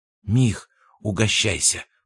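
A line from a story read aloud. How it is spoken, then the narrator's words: Whispered. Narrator (Russian): прошептал Абрамов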